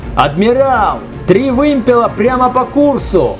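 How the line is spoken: Shouting sailor. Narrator (Russian): закричал матрос на Марселе

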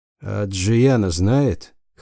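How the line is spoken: Hoarse. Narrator (Russian): хрипло проговорил Чарус

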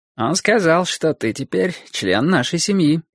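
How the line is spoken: Bored tone. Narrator (Russian): скучающим тоном сказал Борис

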